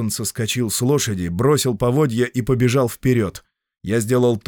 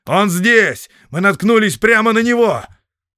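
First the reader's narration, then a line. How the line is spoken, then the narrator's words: Shouted. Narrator (Russian): Гилтон крикнул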